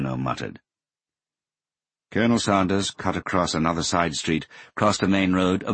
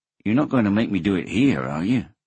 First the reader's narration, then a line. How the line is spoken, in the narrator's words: Hoshino asked anxiously